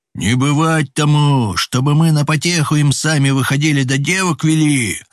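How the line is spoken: Shouting. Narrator (Russian): закричал Авдей Иронин

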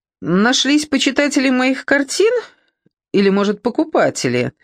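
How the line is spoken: Joking tone. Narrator (Russian): Она говорила шутливым тоном

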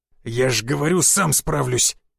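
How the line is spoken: Said through gritted teeth. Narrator (Russian): процедил я

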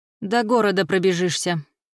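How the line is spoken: Teacher, grim. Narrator (Russian): мрачно сообщил учитель

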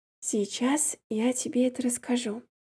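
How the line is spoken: Whispered into hair. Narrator (Russian): прошептала я в спутанные детские волосики

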